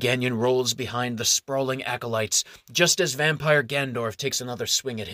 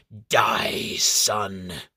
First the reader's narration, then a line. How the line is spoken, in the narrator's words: hisses two words